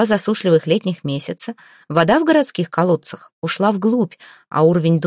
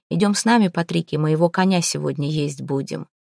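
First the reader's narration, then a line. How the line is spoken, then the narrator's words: Quiet, tearful. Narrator (Russian): добавил он негромко и заплакал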